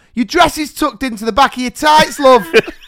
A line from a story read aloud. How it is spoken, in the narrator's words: shout over the mic